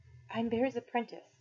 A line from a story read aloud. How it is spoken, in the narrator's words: I whispered